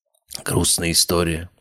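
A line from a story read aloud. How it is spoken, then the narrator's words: Sigh. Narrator (Russian): вздохнул я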